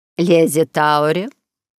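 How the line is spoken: Dry, old woman. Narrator (Russian): сухо уронила слова старая герцогиня

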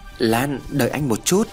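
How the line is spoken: Trembling stammer. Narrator (Vietnamese): Hùng cất tiếng lắp bắp, giọng run rẩy

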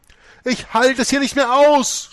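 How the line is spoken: Screamed. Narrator (German): schrie sie

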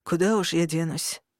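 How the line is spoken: Sighing. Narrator (Russian): вздохнул начальник стражи

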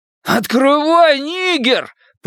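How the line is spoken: Roar. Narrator (Russian): проревел Генри

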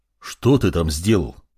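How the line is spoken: Calmer. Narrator (Russian): уже более спокойно произнес Сарт

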